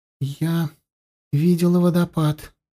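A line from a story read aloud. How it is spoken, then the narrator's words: Whispering. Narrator (Russian): зашептала она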